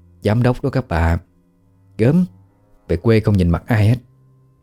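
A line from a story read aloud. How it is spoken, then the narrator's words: Gossiping whispers. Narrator (Vietnamese): Họ thì thào với nhau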